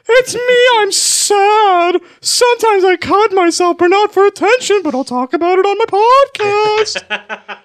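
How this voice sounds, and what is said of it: Imitates another person's voice. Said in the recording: “Can you do a Danny Hatch impression? ... Let me get into character ... The voice isn't right, but... The vibe is.”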